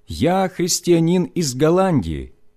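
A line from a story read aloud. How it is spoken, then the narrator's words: Loud deep-breath speech. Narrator (Russian): набрав полную грудь воздуха, я громко сказал по-немецки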